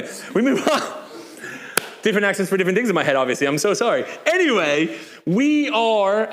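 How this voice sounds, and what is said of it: Usual voice. Nothing is said of it.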